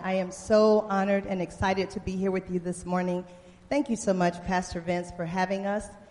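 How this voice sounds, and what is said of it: Speaks with a noticeable accent. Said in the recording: “Are y'all all right with my accent?”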